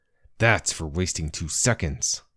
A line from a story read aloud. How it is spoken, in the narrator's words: I said, with more of a snarl than I'd intended